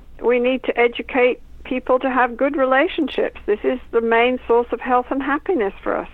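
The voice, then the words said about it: Speaks with a noticeable accent. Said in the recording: “I love your accent. I could listen to you all day long.”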